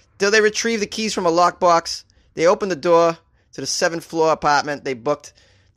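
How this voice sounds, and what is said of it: Exaggerated Boston accent. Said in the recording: “I'll read the rest of this article in a Boston accent just to give it a little life ... I kicked on the Boston accent”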